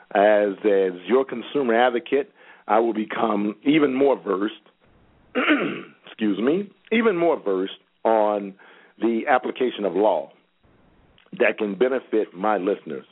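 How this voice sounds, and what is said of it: Choked-up, emotional voice. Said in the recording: “Were you about to cry? ... I got choked up.”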